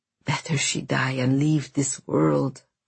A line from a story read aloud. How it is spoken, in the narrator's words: croaked Constantine